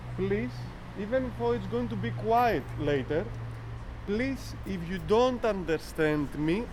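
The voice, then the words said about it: Strong Greek accent. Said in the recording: “I have a very, very Greek accent.”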